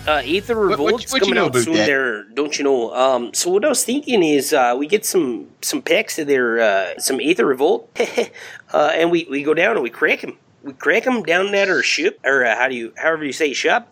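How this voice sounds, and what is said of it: Put-on exaggerated Canadian accent. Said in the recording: “your Canadian accents sound like you're from Minnesota ... Jeez, fucking awful ... Terrible.”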